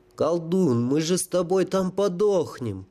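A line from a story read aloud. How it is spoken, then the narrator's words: Groan, soldier. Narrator (Russian): простонал сапер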